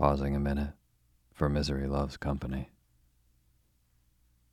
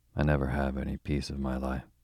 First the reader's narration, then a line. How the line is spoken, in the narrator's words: sighed Kitty, feeling that her lot was a hard one